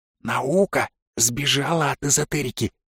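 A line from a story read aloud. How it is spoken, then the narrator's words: Whispered comment. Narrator (Russian): шепотом прокомментировала Оля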